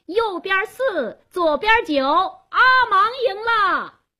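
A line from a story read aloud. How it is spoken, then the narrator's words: Loud shout. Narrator (Chinese): 加斯东做公证人，他高声喊道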